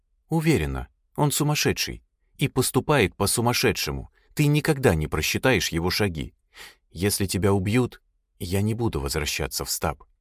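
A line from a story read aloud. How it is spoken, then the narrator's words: Quiet. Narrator (Russian): тихо добавила она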